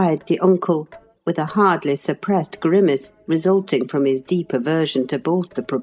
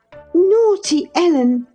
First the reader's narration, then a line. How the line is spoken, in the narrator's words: exclaimed Catherine